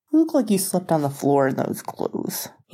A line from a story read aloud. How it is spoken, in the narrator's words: he grumbled